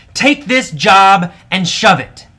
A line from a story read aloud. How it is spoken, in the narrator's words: AJ yelled at his boss finally